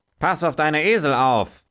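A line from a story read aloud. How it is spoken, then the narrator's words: Called out. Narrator (German): rief der Bauer gleich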